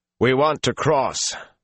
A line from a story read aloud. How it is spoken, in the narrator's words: Perrin said loudly